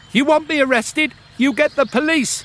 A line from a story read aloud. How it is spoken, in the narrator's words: shouted